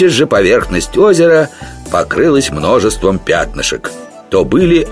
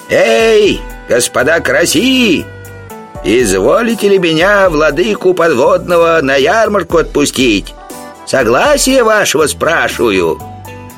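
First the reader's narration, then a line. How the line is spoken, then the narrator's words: Yelling. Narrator (Russian): заорал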